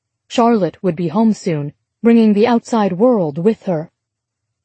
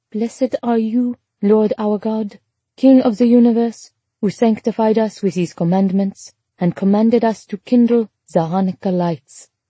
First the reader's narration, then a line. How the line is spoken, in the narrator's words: Charlotte recited solemnly